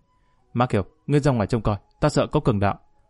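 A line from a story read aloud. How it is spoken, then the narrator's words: Suppressed anger. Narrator (Vietnamese): Lý Kỳ cố nén giận dữ nói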